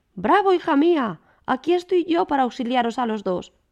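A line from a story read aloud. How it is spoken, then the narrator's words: Father's sweet shout. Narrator (Spanish): sonando más dulcemente que todas las músicas, la voz de su papá que gritaba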